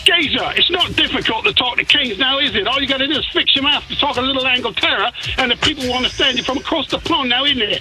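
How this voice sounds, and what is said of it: Put-on English accent. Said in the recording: “say something in your English accent.”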